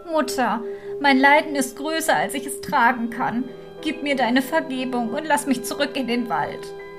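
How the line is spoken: Sobbing. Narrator (German): schluchzte wieder und sprach

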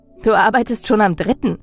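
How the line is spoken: Laughing. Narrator (German): lachte ich ihn an

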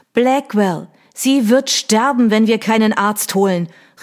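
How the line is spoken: Upset shout. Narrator (German): rief sie aufgebracht

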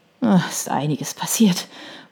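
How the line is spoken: Murmur. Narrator (German): murmelte

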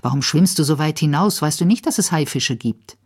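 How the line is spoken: Angry. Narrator (German): Costanza … sagt zornig

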